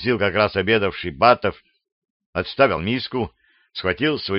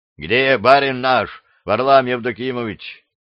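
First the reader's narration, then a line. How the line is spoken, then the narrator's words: Loud question. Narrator (Russian): громко спросили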